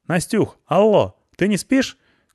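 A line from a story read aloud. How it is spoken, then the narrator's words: Called out. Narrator (Russian): крикнула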